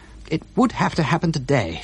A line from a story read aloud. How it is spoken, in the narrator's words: she cried out